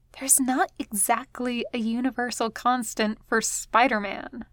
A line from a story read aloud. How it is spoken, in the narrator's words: Gwen whispers back